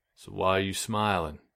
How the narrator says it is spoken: Kyle, the guitarist, asked, his voice thick with disappointment

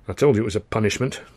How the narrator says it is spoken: Charlie muttered

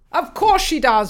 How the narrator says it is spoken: Roland barked

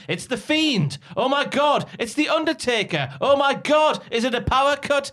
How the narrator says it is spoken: People in the crowd who think they know everything scream

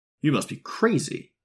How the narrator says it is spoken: exclaimed Tom automatically

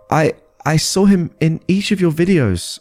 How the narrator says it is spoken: I stuttered

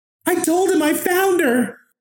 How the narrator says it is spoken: She was screaming

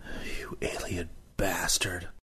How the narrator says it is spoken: I muttered

